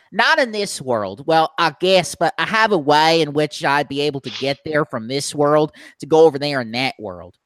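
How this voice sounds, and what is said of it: Thick accent. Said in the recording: “your accent is quite infectious ... my accent's very thick and sometimes people have trouble understanding what I'm saying”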